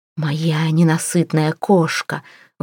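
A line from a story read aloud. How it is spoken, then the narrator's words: Breathed close. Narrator (Russian): выдохнул в лицо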